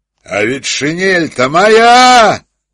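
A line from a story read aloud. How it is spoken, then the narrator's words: Thunderous voice. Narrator (Russian): сказал один из них громовым голосом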